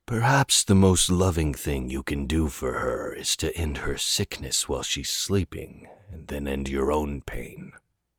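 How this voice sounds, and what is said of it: Smooth deep character voice. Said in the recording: “stated a smooth, deep voice”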